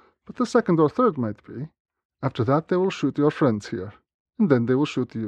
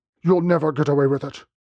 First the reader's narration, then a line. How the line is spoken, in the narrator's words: he spat